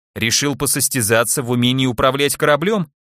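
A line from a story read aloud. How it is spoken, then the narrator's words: Snide remark. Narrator (Russian): ехидно заметил Келлер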